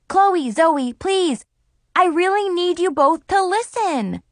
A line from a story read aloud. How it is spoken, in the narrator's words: I yelled